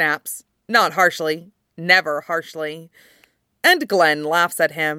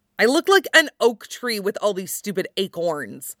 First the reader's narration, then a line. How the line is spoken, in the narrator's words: Artos snaps